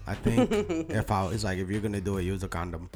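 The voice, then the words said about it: Bad put-on Brazilian accent. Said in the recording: “That was the worst Brazilian accent ever.”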